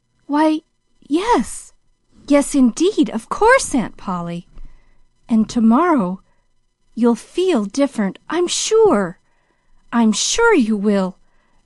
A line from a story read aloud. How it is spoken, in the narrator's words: reiterated the girl, her voice quivering with hope again